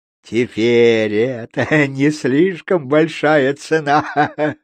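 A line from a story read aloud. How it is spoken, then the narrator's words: Laughing. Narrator (Russian): рассмеялся Кео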